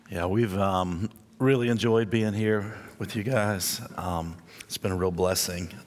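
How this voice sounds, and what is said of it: Weak, tired voice. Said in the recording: “You can tell my voice is getting a little weak”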